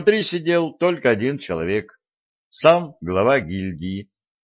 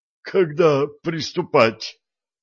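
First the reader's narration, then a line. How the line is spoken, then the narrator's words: Wheezed. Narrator (Russian): просипел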